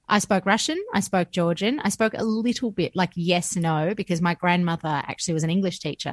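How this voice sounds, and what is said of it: Mixed Australian and American accent. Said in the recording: “my accent is a little bit two parts Aussie, one part American”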